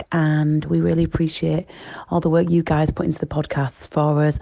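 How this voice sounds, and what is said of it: Leeds accent. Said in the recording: “the most Leeds girl I've ever heard ... It's gorgeous accent. Gorgeous.”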